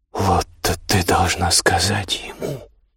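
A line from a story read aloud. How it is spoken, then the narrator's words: Whispered. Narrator (Russian): зашептала Биргит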